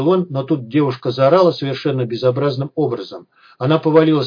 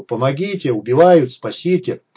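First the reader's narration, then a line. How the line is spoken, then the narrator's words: Loud brazen yelling. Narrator (Russian): Орала она так самоуверенно и так громко и нахально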